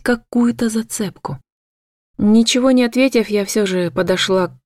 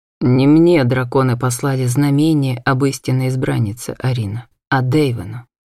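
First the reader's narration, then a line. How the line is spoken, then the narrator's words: Perfectly calm. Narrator (Russian): совершенно спокойно ответил Натан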